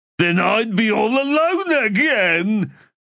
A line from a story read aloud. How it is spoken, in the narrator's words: Ublala wailed, tears springing back to his puffy eyes